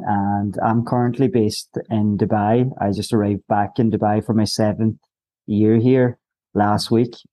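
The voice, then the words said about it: Irish accent. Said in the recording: “I'm going from Ireland by the accent”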